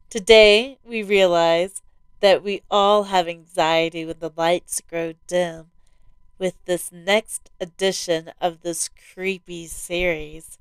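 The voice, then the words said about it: Slightly altered, under-the-weather voice. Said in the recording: “my voice sounds a little different today. I've been working on getting over a bug”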